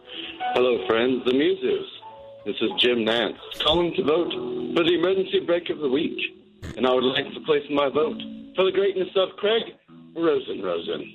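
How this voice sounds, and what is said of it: Fake British accent. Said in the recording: “get rid of the British accent ... what was with the British accent?”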